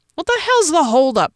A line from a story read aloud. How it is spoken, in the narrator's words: shouted